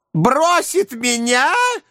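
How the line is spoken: Shrill squeal. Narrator (Russian): взвизгнула незамужняя тетушка

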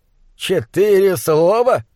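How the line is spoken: Groaning. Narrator (Russian): простонал фон Хельрунг

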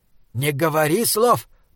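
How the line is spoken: Hiss. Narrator (Russian): прошипел Бинабик

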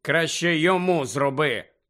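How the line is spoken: Grumble. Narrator (Ukrainian): буркнув Фред

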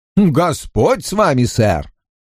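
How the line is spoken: Laughing. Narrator (Russian): Прида, смеясь

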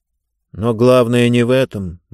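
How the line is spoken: Gloomy. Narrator (Russian): мрачно сказал он

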